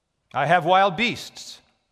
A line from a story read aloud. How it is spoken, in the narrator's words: said the proconsul